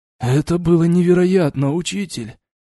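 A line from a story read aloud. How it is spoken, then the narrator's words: Wounded hoarse wheeze. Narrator (Russian): Прохрипел пробитой грудью Крат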